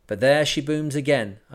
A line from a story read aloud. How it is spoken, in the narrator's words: I cried